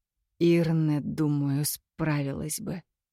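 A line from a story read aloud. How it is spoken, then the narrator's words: Mumbling. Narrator (Russian): пробормотал Кирино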